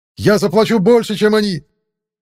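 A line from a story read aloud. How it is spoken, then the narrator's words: Shouting after someone. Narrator (Russian): Закричал вслед Стейн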